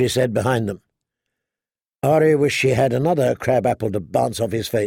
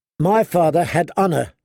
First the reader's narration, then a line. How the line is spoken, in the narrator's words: she said angrily